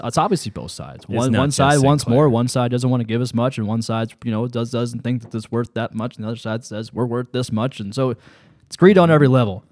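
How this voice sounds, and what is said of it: Very fast auctioneer-like speech. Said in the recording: “You sound like an auctioneer.”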